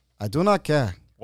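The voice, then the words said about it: Poor put-on Wakandan accent. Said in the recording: “Wakandan accent ... that was like really not Wakandan at all ... you just made him Jewish”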